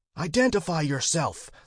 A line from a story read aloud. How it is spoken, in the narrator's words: the chief snapped